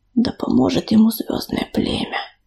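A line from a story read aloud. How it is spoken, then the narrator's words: Whisper. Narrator (Russian): прошептал Терновник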